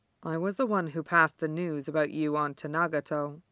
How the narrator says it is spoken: she says quietly

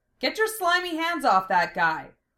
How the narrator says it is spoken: Lena shouted

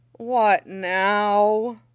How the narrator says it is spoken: Peng Hongpeng groans

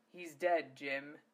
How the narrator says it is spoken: Zelos said in a deadly serious voice

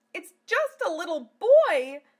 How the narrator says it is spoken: cried Amelia

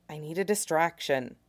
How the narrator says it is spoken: he mutters, as quiet as he can, to still get heard under the drunks

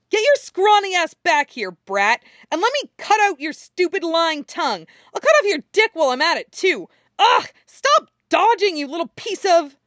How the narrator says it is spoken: Anko screeches and follows him, shouting

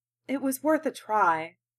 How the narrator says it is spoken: Kaoru sighed

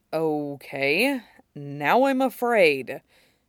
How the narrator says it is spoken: Shiro murmured

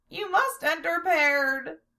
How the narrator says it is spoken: he squeaked

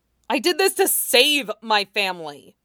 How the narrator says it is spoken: Mean said fiercely

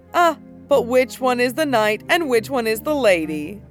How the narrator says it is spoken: he laughed that high, shrill laugh of his and said

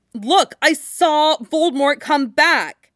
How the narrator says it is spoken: Harry shouted

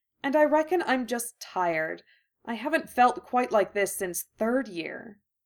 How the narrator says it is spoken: Hermione said miserably

